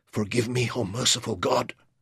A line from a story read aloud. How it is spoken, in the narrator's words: he whispered